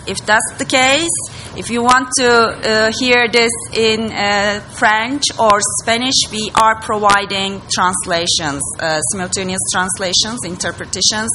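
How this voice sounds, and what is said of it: Non-native English accent. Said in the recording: “I'm not an native English speaker, and maybe my accent is, you know, hurting your ears.”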